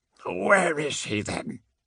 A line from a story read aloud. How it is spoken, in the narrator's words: he asked, his voice already thickening with the adrenal stimulus of combat drugs